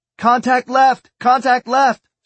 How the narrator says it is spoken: Sloan yelled

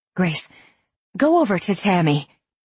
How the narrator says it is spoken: Jude said tightly

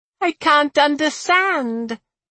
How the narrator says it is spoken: Eviana whined

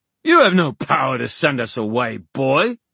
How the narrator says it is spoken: snapped Oban

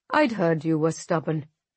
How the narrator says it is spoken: Musa sighs

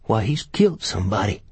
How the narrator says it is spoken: Gus said in a shaking tone

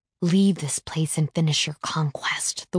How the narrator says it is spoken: the whispers snap

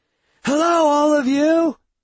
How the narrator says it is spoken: I shout as I run

